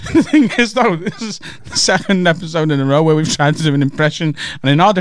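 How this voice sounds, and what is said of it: Usual voice. Nothing is said of it.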